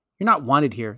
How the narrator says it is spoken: said Edmund curtly

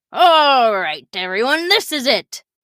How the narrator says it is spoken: He roared over all the excitement

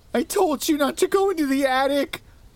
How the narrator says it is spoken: sobbed

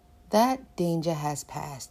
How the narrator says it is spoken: the witch said

